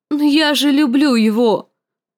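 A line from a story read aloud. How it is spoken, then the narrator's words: Frightened, distraught moan. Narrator (Russian): простонала Санса в смятении и испуге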